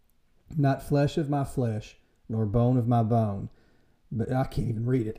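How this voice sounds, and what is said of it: Slightly emotional voice. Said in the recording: “it gets me a little emotional.”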